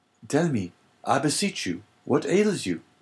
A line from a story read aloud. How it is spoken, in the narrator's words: cried Dante